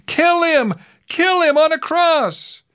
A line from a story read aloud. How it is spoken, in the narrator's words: they shouted again